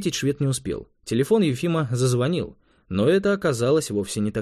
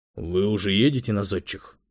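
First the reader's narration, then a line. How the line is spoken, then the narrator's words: Gloomy question. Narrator (Russian): мрачно осведомился он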